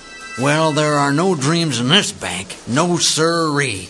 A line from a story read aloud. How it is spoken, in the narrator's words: grumbled old Hockaday